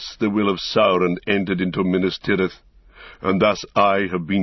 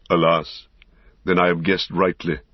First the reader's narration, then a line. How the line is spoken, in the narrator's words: said Gandalf